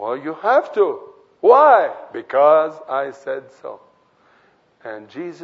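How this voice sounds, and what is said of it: Usual voice. Nothing is said of it.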